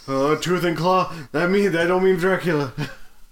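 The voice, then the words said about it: Imitates another person's voice. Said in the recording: “good me impression. That is exactly what I sounded like.”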